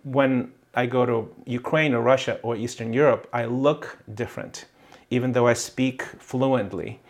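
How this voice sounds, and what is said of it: Mixed, hard-to-place foreign accent. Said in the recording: “I have an accent, right? A very confused accent. They can even tell what the accent is from.”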